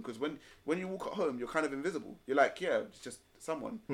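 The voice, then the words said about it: London accent. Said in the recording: “My voice sounds like it's from London ... a London accent”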